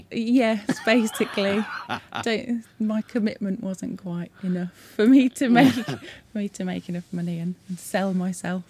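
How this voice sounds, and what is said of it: Strong Brummie (Birmingham) accent. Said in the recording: “I could tell by that Brummie accent. ... Yeah, strong, isn't it? ... Absolutely.”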